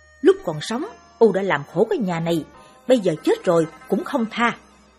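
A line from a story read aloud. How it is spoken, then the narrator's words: Angry unrepentant shout. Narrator (Vietnamese): Ông Vê chẳng những không ăn năn mà còn bực tức quát vợ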